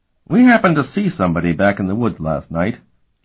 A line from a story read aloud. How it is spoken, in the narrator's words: Curic said in a mildly conversational tone